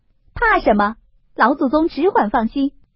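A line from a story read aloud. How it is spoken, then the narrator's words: Laughing. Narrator (Chinese): 凤姐儿笑道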